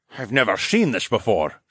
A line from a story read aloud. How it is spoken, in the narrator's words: Phineas grunted